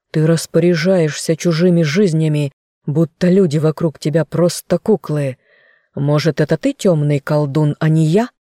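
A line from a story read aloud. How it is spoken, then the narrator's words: Growled. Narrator (Russian): рычал мужчина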